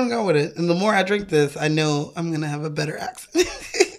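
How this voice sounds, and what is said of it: Usual voice. Nothing is said of it.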